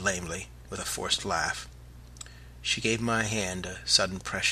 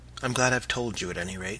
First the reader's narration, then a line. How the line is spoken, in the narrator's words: she said quickly under her breath